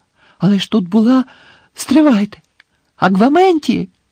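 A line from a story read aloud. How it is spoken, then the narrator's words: Exclaiming again. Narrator (Ukrainian): Знову вигукнув Гаррі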